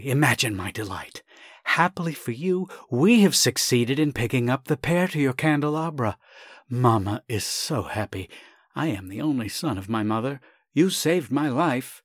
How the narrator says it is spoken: he began breathlessly

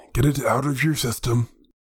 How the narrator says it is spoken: grumbled Runkus

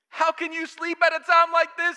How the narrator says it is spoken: he shouted

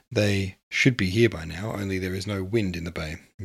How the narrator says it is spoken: Yeats muttered

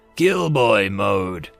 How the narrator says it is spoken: They both growled

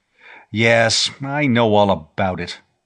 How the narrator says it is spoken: Rodney Maxwell said bitterly

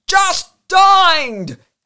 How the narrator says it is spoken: roared despairingly

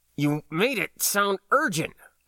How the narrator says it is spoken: grunted

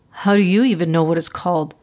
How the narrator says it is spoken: Cole snapped

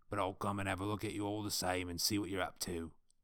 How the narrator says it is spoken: growled Snaga

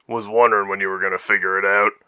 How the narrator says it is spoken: Wolfgang chuckled

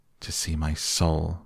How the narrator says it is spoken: muttered Dorian, turning almost white from fear

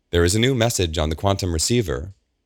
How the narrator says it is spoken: Audrey says

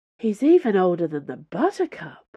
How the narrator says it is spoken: breathed D'Artagnan

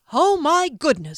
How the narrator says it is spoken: exclaimed

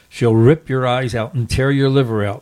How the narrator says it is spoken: laughed Berto

